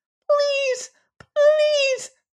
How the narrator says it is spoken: squeaked the little alien pitifully

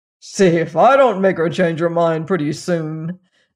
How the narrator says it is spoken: said the wicked king with a chuckle

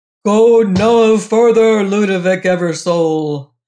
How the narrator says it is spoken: a mighty voice roared from within

